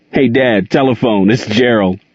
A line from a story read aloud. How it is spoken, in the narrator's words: called Rob, laughing